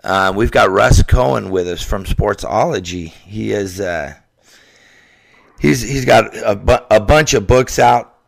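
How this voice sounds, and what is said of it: Sick-sounding voice. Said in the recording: “Excuse my voice. I've been under the weather the last couple of days”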